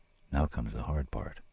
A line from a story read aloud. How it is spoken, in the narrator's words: he said, too softly for the other to hear